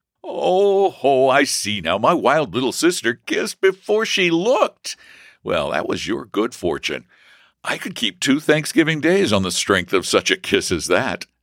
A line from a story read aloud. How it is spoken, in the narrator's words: cried the light-hearted student